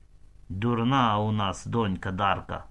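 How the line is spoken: Plain. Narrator (Ukrainian): сказав татко

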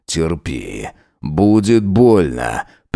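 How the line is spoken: Warning. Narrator (Russian): предупредил он

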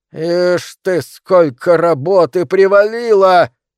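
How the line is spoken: Exclamation. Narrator (Russian): воскликнул

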